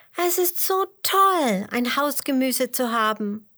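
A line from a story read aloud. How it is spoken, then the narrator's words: Calling out. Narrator (German): ruft Emmerla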